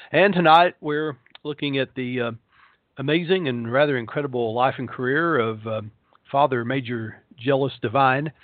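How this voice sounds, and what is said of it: Hoarse voice. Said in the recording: “I'm a little hoarse today. I've been doing readings all day.”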